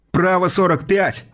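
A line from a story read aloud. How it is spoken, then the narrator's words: Shouted. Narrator (Russian): выкрикнул Казарцев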